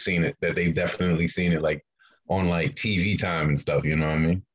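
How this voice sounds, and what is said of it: New York accent. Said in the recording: “You sound so New York right now. Like, I've never noticed it. Yeah, it's coming through. I'm telling you, it's pumping through the mic.”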